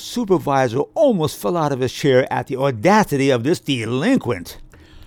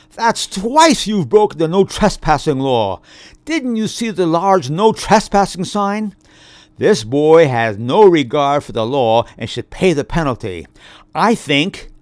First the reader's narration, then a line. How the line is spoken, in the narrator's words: the supervisor cried out